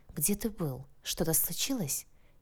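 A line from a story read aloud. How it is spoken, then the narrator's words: Quiet concerned question, girl. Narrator (Russian): тихо спросила девушка, как будто чувствуя его волнение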